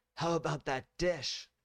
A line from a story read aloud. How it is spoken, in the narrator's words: John yelled back to her